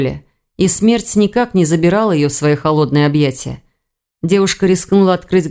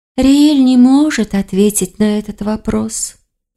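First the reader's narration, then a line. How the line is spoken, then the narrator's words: Sighing. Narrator (Russian): вздохнула Герника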